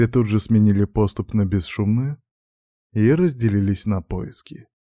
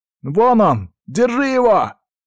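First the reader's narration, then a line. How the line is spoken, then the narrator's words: Boar shouting. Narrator (Russian): выкрикнул один из вепрей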